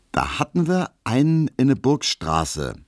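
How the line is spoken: Plain. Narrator (German): sagte Herr Tesch

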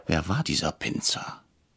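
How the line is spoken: Whisper. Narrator (German): flüsterte ich Herrn Brecher zu

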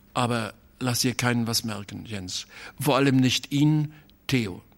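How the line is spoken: Hesitant voice. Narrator (German): sagte er noch mit zögernder Stimme

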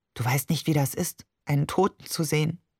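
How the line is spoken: Unusually quiet. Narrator (German): sagte schließlich ungewohnt leise

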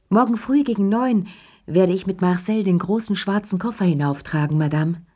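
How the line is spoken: Calling down hallway. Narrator (German): die Stimme von Ernest, dem Concierge, der durch den Flur rief

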